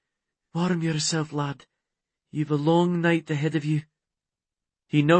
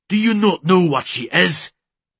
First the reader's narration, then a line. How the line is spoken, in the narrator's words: Da spat the words